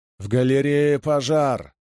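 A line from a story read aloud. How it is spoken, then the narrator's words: Piercing scream. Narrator (Russian): пронзительно закричал Дая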